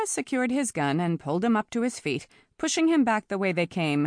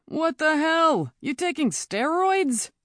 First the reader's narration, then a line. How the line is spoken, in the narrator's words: Arthur whined